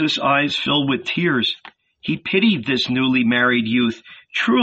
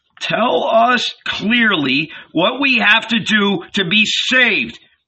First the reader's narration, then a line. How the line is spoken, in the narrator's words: cried a house owner